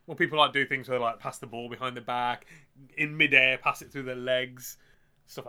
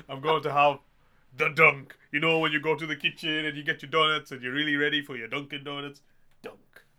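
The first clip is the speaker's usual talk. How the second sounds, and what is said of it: Imitates another person's voice. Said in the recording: “everyone's going to think we had Arnold Schwarzenegger on then.”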